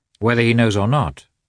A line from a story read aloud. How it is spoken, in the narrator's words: said Vronsky in his usual firm, calm tone